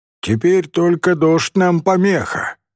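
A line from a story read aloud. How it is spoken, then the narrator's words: Oddly loud after silence. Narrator (Russian): сказал Рауф странно громким голосом после долгого молчания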